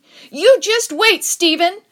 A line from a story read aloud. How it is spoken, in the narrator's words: I screamed, and I meant it